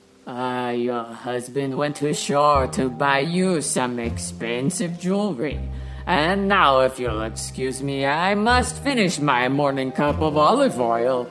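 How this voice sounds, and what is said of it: Thick put-on Greek accent. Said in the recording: “The captain, in his deliciously thick Greek accent, tells Michelle ... he sounded exactly like that.”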